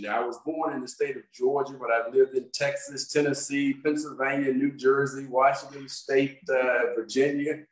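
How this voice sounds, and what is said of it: Mixed American regional accent. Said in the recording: “where's your accent from ... it's a bit of a combination ... The contrast between the two accents”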